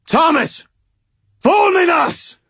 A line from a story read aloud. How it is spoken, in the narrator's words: screamed